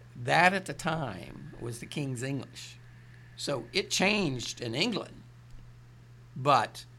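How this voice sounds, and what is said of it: Appalachian accent. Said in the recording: “you got that charming Southern accent... It's Appalachian”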